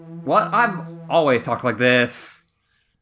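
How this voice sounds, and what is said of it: Aggressive, unplaceable accent, rising sentence ends. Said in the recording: “You're talking strangely... you usually have more of an elegant, sort of haughty tone to your voice, and now you just seem aggressive, and I can't place that accent... the words at the end of my sentence just go up”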